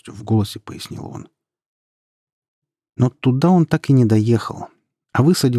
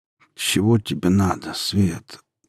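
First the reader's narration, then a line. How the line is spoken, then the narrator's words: Slow, muffled. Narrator (Russian): медленно и глухо ответил он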